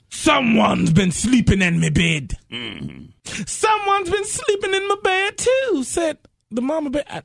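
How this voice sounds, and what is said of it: Put-on near-Jamaican accent. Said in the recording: “What accent does she have? ... it was Jamaican almost.”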